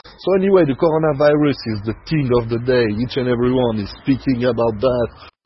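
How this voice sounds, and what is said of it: French-accented English. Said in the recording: “My French accent got to disappear.”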